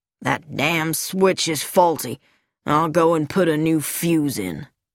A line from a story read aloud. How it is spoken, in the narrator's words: He growled